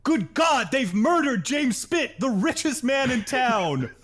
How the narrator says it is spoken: Somebody in the crowd shouts

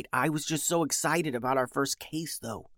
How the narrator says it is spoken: whispered Beatrice

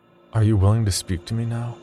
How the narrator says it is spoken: I asked him

